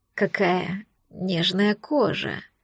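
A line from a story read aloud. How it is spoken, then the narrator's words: Entranced breath in ear. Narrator (Russian): Завороженным голосом выдохнули мне в ухо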